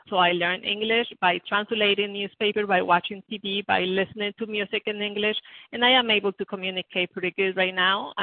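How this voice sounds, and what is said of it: Strong non-native English accent. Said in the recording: “that's why my accent is so strong”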